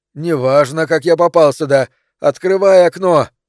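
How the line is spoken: Shout. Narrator (Russian): он ей крикнет

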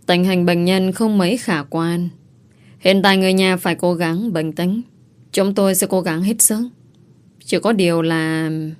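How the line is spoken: Sighing reply. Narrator (Vietnamese): Nữ bác sĩ thở dài rồi đáp

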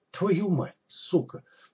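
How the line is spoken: Stunned mutter. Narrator (Russian): пробормотал опешивший док

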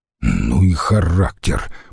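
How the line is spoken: Grumbling mutter. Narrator (Russian): буркнул Трибоний

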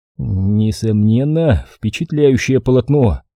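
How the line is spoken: Forced out reluctantly. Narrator (Russian): выдавил я

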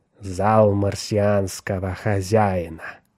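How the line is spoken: Hiss. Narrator (Russian): прошипел он

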